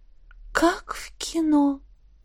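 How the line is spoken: Admiring breathless exclamation. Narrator (Russian): выдохнула я восхищенно

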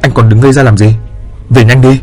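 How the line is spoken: Snapping irritably. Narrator (Vietnamese): cô ta đã gắt

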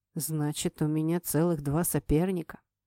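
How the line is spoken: Gloomy statement. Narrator (Russian): мрачно констатировал Айдар

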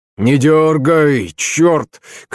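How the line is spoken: Shouting while straining. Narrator (Russian): кричал, стараясь придать бредню надлежащее положение

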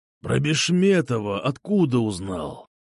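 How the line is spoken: Cold, menacing, through teeth. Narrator (Russian): Холодно и зловеще процедил Ширяй

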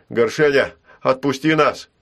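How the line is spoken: Shout. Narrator (Russian): крикнул Ул

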